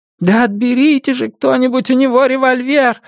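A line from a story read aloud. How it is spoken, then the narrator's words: Woman shouting. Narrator (Russian): закричала какая-то женщина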